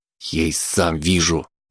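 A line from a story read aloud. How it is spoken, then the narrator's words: Snapped retort. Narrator (Russian): огрызнулся Макс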